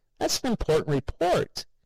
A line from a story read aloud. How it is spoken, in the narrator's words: cried